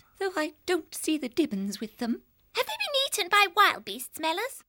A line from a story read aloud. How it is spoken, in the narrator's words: One of the leverets piped up